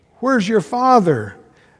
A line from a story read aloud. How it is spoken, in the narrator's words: the young fellow is just sobbing his heart out, and he says